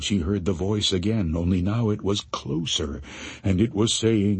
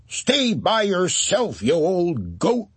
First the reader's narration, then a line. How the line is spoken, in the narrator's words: she hollered back